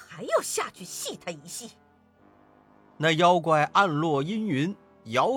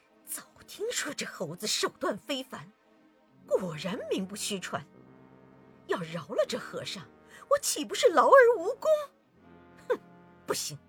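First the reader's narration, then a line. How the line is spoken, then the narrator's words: Teeth-gritted, resentful. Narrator (Chinese): 那妖怪在云端里咬牙切齿，暗恨道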